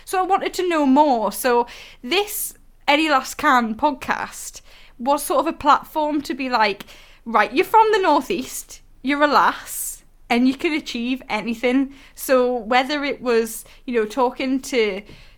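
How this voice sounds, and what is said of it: Northeast English accent. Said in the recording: “I'm from the Northeast and it's my accent”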